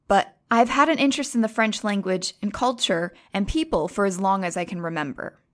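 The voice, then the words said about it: American accent. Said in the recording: “You could probably tell from the accent that I'm not French and that I'm American.”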